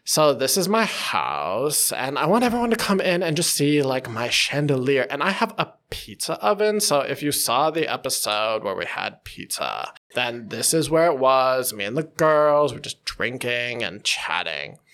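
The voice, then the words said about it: Exaggerated valley girl accent. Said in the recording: “she used that sort of valley girl. And I'm going to overdo it ... when I make fun of the accent”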